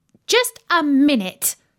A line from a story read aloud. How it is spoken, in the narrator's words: said Daisy firmly